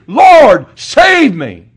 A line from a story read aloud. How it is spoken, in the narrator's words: he was afraid and he beginning to sink, he cried saying